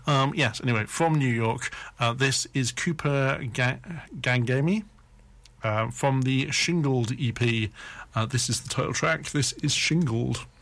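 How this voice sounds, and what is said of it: Slightly hoarse voice. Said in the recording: “I'm still a bit hoarse. I mean, I had a cold the other day”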